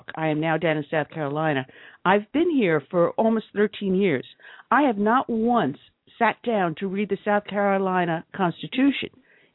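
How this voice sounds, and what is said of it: New York accent. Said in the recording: “as you can tell from my dialect, I used to live in New York”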